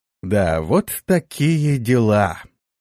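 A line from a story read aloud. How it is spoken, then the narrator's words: Drawn-out, very upset. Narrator (Russian): протянул сильно огорченный Игиет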